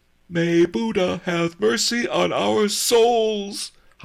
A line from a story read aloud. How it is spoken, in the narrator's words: howled Miser Shen